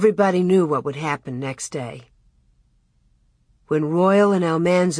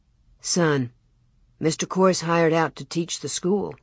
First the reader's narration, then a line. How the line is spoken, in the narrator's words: Father answered